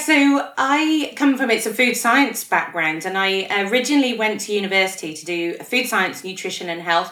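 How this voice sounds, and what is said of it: Non-Australian accent. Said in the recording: “clearly from your accent, you're not from around here originally ... I am working on my Aussie accent. It's just not going very well”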